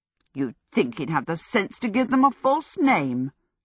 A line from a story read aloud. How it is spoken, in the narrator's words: Sophie said scornfully